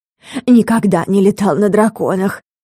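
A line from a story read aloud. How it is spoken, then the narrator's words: Delighted breath. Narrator (Russian): с восторгом выдохнул барабашка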